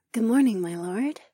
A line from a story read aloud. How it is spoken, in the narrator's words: she purred